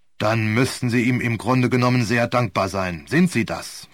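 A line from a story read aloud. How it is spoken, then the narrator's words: Sharp question. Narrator (German): fragte Sir Wilfrid ziemlich scharf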